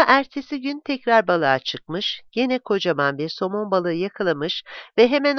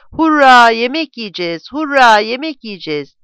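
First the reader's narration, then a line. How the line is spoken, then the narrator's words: Shouting. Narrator (Turkish): diye bağırarak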